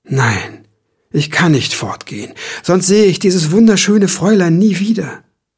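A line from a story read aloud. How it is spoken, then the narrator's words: Sighing, lost in thought. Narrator (German): Gedanken verloren seufzte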